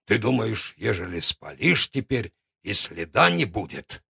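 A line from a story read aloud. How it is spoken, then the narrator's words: Grumbled. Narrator (Russian): буркнул он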